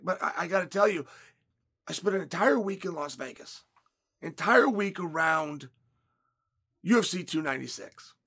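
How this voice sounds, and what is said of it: Hoarse, worn-out voice. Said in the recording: “You can hear it in my voice. ... I've been cheering. I've been screaming.”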